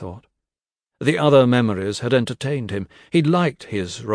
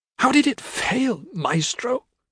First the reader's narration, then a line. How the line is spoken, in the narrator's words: he sobbed